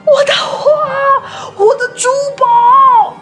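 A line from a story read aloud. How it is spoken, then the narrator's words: Near-shrieking shout. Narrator (Chinese): 男爵几乎尖叫的喊道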